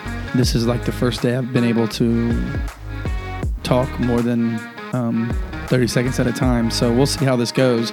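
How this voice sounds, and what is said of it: Hoarse voice. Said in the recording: “I'm a little hoarse today.”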